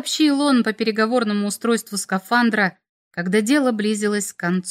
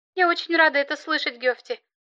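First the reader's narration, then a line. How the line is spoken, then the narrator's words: Trembling voice. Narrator (Russian): отозвалась Керри дрожащим голосом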